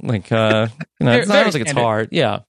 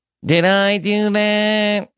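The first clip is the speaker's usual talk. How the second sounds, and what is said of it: Urkel impression. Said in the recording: “do an Urkel impression... very standard... Pretty basic.”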